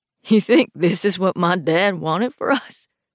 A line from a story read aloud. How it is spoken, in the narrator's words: Jesse laughs, but it's a hard, ugly sound